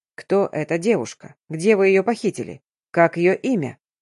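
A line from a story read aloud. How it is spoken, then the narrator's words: Very calm question. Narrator (Russian): максимально спокойно поинтересовался я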